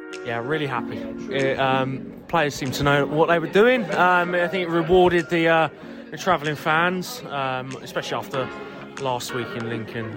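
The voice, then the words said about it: Deep Yorkshire northern English accent. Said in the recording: “a rogue, extremely northern accent ... the deep Yorkshire accent”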